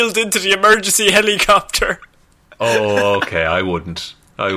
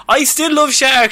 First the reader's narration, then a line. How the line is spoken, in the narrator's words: shouted as she was wheeled into the helicopter